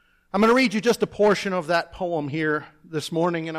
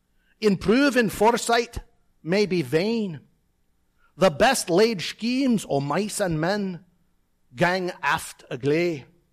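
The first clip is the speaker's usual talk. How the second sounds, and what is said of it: Put-on Scottish accent. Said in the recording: “I'm going to do it in my best Scottish accent.”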